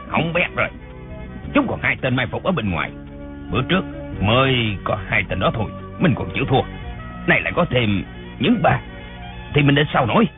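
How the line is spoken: Believing muttering. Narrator (Vietnamese): Dân Trung Hạc tưởng thật, lẩm bẩm

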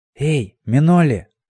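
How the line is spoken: Hoarse whisper from aside. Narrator (Russian): донесся откуда-то сбоку хриплый шепот

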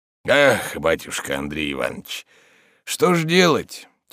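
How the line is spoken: Heavy sigh. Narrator (Russian): тяжело вздохнув, начал Захар

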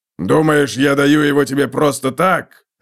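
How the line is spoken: Barking. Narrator (Russian): рявкнул Готрек

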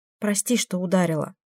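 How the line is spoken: Whispered. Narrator (Russian): шепнула она

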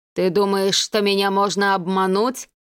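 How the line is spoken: Dreadful sepulchral dead man's voice. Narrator (Russian): проговорил мертвец самым что ни на есть ужасным загробным голосом

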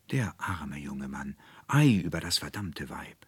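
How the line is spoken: Crowd murmuring. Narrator (German): hörte er überall murmeln

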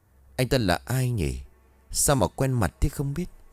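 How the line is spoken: Muttering to herself. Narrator (Vietnamese): Cô lẩm bẩm ở trong miệng

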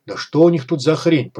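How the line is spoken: Muttering. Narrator (Russian): пробормотал Малахов

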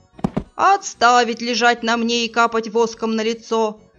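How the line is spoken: Commanding bark. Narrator (Russian): Командным голосом рявкнул Роланд

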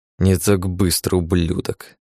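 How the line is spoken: Forced through teeth. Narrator (Russian): Продавил сквозь зубы Алекс

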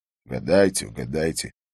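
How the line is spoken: Grumbling. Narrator (Russian): проворчал Харри

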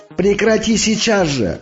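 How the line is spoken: Unrestrained yelling. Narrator (Russian): орал я, не заботясь уже о том, что меня услышат

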